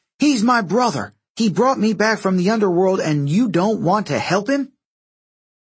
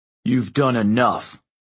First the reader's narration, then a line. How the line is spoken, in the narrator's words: Frank growled